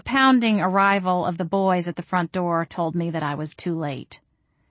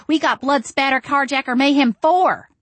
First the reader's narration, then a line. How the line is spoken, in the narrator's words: Andrew shouted